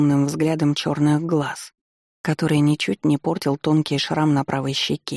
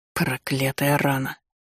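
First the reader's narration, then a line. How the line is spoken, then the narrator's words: Quiet complaint. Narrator (Russian): пожаловался негромко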